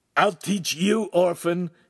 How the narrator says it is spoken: Ugolino yelled

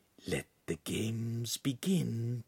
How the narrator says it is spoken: Pan whispered

